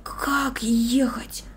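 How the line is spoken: Whispered. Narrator (Russian): прошептал он

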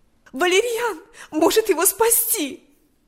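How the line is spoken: Exclamation. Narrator (Russian): воскликнула она

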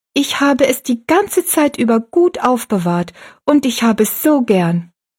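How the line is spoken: Calling out. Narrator (German): rief

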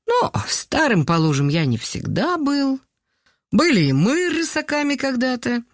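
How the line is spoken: Laughing. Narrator (Russian): рассмеялся Николай Петрович

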